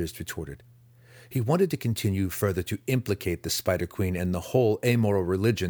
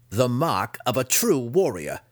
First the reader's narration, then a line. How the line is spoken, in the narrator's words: Dinan replied with a wicked laugh